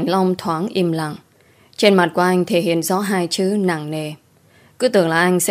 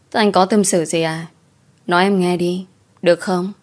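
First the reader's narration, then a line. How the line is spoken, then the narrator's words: Smiling question. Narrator (Vietnamese): Tôi mỉm cười rồi hỏi lại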